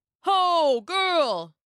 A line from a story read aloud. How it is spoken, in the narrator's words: shouted